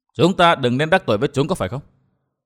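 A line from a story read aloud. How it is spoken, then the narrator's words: Cold laughing speech. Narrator (Vietnamese): Vân Thiên Nhạc lạnh lùng cười nói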